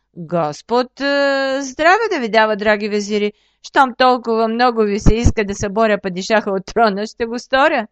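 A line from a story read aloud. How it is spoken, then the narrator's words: Laughing. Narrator (Bulgarian): засмял се плешивецът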